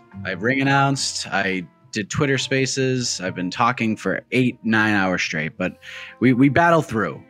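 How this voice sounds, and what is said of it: Slightly raspy, strained voice. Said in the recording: “Your voice seems a little off... Why is your voice so a little raspy?”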